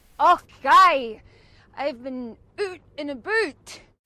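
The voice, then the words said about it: Deliberately bad fake Scottish accent. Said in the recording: “really, really bad impressions. This one was actually meant to be bad ... tries to pretend to be speaking with a Scottish accent”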